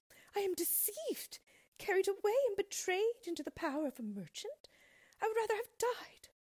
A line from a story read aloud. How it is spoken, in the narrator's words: she cried in terror